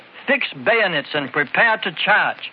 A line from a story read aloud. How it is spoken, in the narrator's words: A white-faced captain shouted